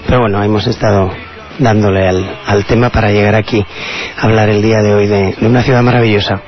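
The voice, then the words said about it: Hoarse, deepened, strained voice. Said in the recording (Spanish): “Aquí con la voz, dice mi hijo que se me está poniendo voz de hombre ... me quedé prácticamente sin voz”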